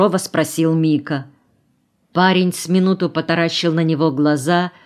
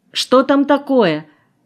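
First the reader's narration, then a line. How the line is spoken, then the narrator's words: Distant shout. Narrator (Russian): крикнула Мэри из-за буфета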